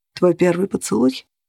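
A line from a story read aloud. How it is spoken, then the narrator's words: Muffled, hollow voice. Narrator (Russian): глухо выговорил Грегор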